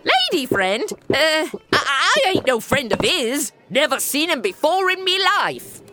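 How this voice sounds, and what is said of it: Inconsistent put-on British barmaid accent. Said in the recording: “you've slipped your accent through so many dialects. I feel as though I were on a tour of the British Isles via America.”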